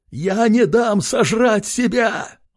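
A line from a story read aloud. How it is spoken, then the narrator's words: Male shout. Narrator (Russian): выкрикнул он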